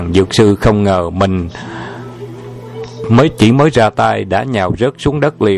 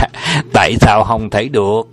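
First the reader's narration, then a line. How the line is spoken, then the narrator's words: Laughing loudly, asking. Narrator (Vietnamese): Trùng Dương cười lớn và hỏi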